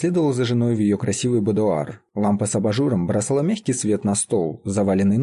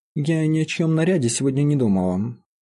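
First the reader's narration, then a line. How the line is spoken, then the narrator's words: Displeased tone. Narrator (Russian): сказала мистерис Гаркресс недовольным тоном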